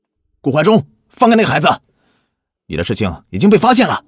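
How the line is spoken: Sudden shout. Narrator (Chinese): 突然听到耳边响起一声叫喊

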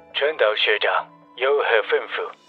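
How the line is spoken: Flat, indifferent. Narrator (Chinese): 流川刚介…淡淡的说

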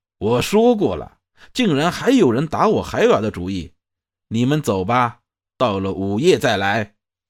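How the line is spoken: Angry. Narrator (Chinese): 那道长脸色怒道

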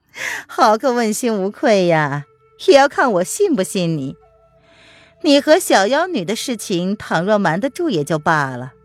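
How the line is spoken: Lady, laughing. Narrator (Chinese): 叶来夫人笑着说

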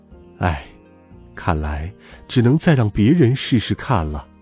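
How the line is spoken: Sighing. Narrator (Chinese): 稳兽叹了口气说

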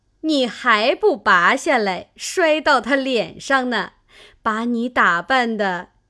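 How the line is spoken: Group laughing. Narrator (Chinese): 众人笑道

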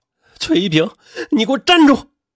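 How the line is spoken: Shouting. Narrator (Chinese): 安然嘴里边喊着

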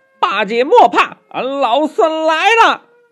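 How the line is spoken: Loud shout. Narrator (Chinese): 忍不住高声的叫道

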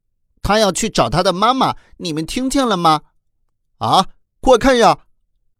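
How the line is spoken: Sudden startled cry. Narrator (Chinese): 贝贝突然惊叫起来

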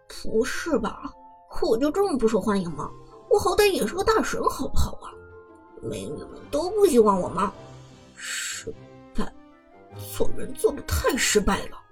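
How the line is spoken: Wry, helpless self-mockery. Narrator (Chinese): 苦笑着，一脸无奈的自嘲道

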